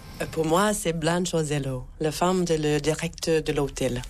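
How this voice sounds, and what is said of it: American accent speaking French. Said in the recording (French): “Vous êtes américaine et on l'entend à votre accent”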